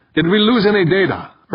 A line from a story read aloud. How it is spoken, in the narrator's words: Urbain called out